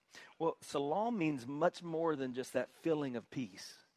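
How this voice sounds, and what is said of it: Southern US accent. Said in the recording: “we're from South Carolina. If I know with my accent, you probably assumed I was from New York, but I'm from South Carolina”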